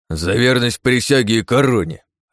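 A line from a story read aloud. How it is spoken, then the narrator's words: Barked. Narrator (Russian): рявкнул капитан Армус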